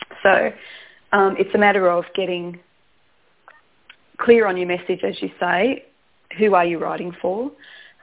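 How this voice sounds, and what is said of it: Strained, fading voice. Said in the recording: “I'm just losing my voice a little bit.”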